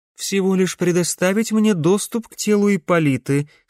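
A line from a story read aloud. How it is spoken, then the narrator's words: Plain. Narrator (Russian): сказала Корделия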